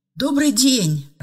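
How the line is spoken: Joyful greeting. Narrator (Russian): радостно поздоровалась Ева

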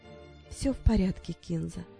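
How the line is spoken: Whisper. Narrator (Russian): прошептала она

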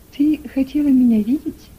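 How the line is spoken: Soft question. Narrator (Russian): мягко спросила миссис Берт

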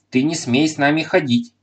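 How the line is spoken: Sharp scolding shout. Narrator (Russian): прикрикнула на него Таня

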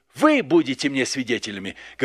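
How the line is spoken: Plain. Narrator (Russian): говорит Христос

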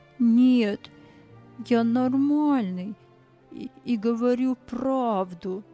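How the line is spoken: Quiet, trembling. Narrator (Russian): Тихим, дрожащим голосом он ответил

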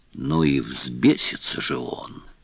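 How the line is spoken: Muttered. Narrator (Russian): честный малый пробормотал

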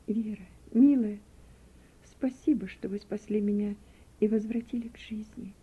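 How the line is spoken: Weak, barely audible. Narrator (Russian): Слабым голосом, чуть слышно, проговорила она

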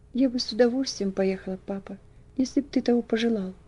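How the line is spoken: Timid reply. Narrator (Russian): робко ответила она

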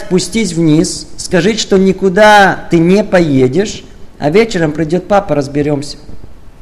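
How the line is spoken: Calm, firm despite tears. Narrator (Russian): Вопреки слезам и истерике, спокойно и твердо сказать

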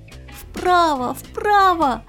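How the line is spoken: Loud desperate shout. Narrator (Russian): закричал червячок Игнатий изо всех сил

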